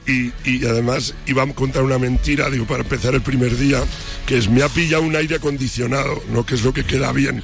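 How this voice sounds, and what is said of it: Hoarse, nearly lost voice. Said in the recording (Spanish): “esa voz como la tengo ... estoy afónico ... estuve cantando como un perro las canciones”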